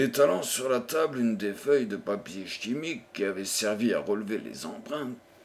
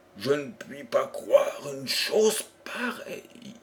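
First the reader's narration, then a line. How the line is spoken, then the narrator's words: Exclaimed. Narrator (French): s'écria John Jervis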